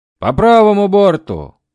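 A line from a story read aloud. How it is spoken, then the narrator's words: Shouting aboard ship. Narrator (Russian): кричали на корабле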